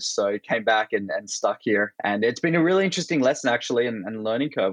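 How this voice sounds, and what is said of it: Australian accent. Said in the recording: “I'm originally Australian. That's my accent”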